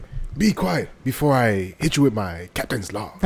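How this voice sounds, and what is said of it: Captain Kirk impression. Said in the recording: “trying to do Kirk ... That was at least better.”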